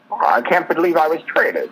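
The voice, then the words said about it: Imitates another person's voice, badly. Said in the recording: “That's a little bad Jimmy Stewart impression.”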